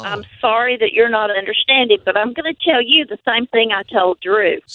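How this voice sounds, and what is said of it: North Carolina accent. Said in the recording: “You don't know my accent. It's from North Carolina.”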